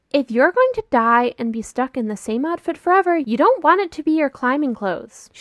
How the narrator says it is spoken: she yells

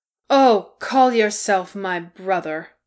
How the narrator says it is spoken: Bomber said scornfully

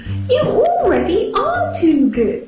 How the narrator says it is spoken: screamed Mother Witch

